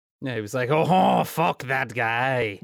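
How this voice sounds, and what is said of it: Bad put-on French accent. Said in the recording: “French accent I just did. It was bad.”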